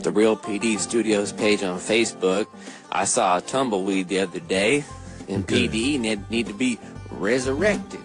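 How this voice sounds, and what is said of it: Slight put-on southern accent. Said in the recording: “I just went into a little southern accent”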